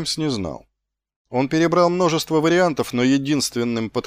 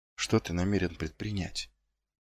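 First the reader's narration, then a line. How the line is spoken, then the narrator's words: Barely audible. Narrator (Russian): Едва слышно выговорил он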